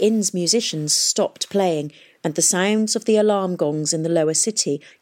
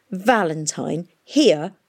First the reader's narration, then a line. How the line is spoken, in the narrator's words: sneered the Kerala girl